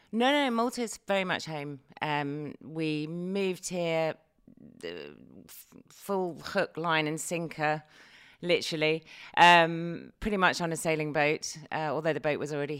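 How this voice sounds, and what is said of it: British English accent. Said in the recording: “judging by your accent, you are not Maltese ... I am originally from the UK.”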